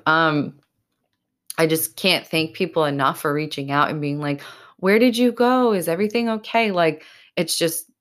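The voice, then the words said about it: Choked-up, tearful voice. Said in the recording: “getting choked up ... I'm really getting choked up.”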